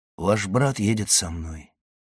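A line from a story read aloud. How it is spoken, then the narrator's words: Soft. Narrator (Russian): мягко сказал граф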